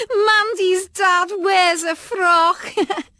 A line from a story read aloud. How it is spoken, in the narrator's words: Kim yelled